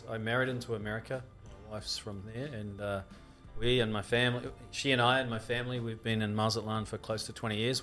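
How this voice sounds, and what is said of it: New Zealand accent. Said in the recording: “This accent's from New Zealand.”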